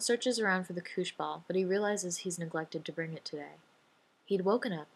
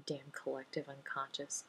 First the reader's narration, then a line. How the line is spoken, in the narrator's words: John mutters